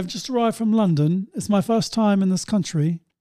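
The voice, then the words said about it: Thickened London accent. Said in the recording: “My accent will get a bit thicker.”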